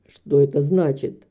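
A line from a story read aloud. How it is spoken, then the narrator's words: Harsh, hoarse voice. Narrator (Russian): прозвучал вопрос обычным резким хриплым голосом мистера Басби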